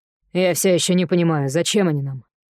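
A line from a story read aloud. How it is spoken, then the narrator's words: Snorted. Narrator (Russian): фыркнула Зора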